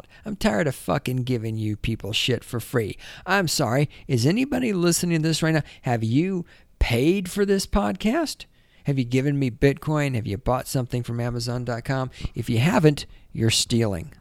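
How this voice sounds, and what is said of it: Imitates another person's voice. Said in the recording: “my Stefan Molyneux impersonation”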